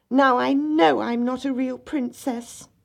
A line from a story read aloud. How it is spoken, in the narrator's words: the little princess cried